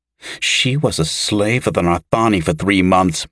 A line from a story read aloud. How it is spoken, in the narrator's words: Mera snapped bitterly